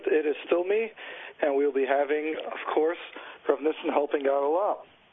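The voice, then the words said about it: Partly lost, hoarse voice. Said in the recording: “I've lost my voice a little. So if I sound a little different”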